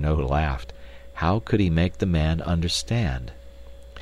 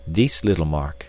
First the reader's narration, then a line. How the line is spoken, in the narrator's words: he said